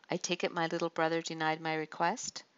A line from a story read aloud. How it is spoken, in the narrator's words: Adonijah laughed mirthlessly